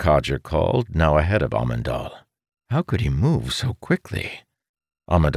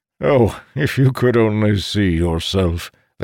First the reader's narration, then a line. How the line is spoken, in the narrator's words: the codger said, chuckling